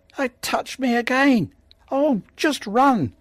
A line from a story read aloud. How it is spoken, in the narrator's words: Zack screamed